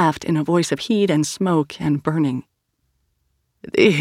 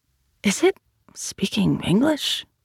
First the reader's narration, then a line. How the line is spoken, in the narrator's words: whispered Sal